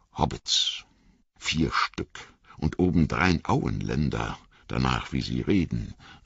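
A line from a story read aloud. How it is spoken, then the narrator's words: Quiet, muttering to himself. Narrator (German): sagte der Torwächter leise, wie wenn er mit sich selbst spräche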